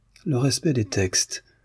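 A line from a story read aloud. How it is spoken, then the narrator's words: Murmuring. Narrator (French): murmura Demian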